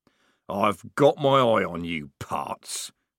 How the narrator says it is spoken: growled Strappi, temporarily defeated

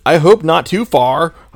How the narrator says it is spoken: shouted angrily

